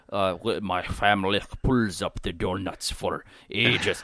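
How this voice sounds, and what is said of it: Put-on Russian old-woman accent. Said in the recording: “this old, you know, very stubborn 90-year-old babushka in the Soviet era, you know, Ukraine or something ... I don't know if that's a Russian accent or exactly what a babushka would sound like”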